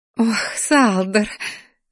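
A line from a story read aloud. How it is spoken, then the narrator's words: Loud laughter. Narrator (Russian): захохотала женщина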